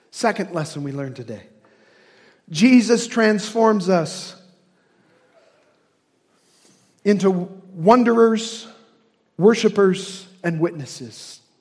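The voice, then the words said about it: Hoosier (Indiana) accent. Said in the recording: “My Hoosier accent sometimes misses those things”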